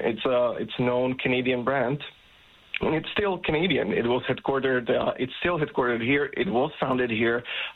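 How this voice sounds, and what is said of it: Non-native, non-Canadian accent. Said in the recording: “you can probably tell by your accent ... that you're not originally from Canada”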